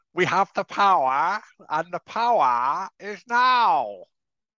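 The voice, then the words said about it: Impression of Eckhart Tolle. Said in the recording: “That's what he sounds like a little bit.”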